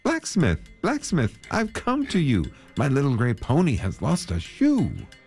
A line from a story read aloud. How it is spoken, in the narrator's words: When he saw the smith, he called out to him